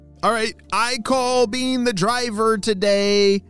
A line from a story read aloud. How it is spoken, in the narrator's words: shouted Neil